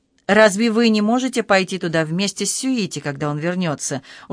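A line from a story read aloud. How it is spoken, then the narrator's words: Calmer. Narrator (Russian): уже более спокойно сказала Хидека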